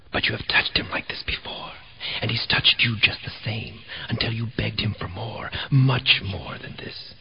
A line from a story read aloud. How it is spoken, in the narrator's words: a dark voice whispered